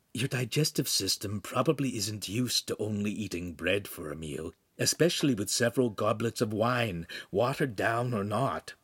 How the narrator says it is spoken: Pan whispered

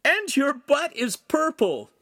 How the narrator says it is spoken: Lincoln howled

